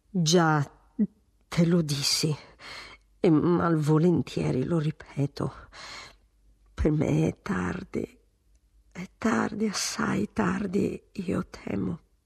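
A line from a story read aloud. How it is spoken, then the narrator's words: Stammering. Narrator (Italian): il marchese balbettò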